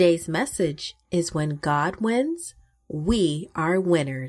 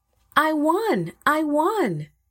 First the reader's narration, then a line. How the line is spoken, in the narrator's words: Mikael shouted